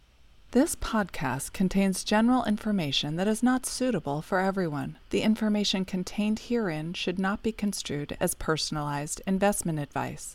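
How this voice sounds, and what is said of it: Formal legal disclaimer reading voice. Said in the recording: “In your best legal voice.”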